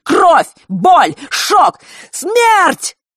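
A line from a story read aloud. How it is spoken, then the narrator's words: Shout. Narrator (Russian): выкрикнул Фэш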